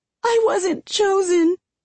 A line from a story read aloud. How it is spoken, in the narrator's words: Ella cries